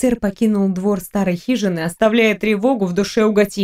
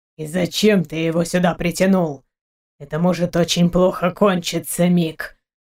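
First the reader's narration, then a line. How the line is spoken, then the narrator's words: Grumbling. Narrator (Russian): проворчал Крешник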